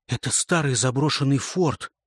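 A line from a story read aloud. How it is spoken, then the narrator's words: Whisper. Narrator (Russian): продолжаю шепотом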